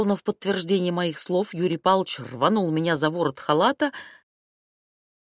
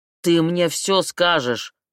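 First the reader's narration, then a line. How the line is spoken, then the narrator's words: Roared. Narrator (Russian): взревел он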